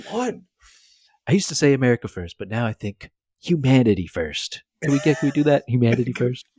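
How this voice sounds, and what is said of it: Imitates another person's voice. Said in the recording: “a good impression”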